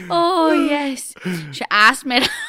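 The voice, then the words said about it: Put-on Northern Irish accent. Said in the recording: “He went Irish there. He went Northern Irish.”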